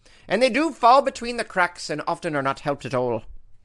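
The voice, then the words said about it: Put-on Irish accent. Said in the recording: “How was that for an Irish accent?”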